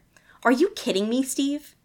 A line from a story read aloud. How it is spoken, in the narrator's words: Eddie grit out, desperately trying to wrestle the lawn dart out of his hand